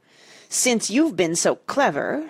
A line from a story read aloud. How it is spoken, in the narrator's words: she said through her teeth